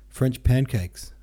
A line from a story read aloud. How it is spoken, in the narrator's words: answered Zirkov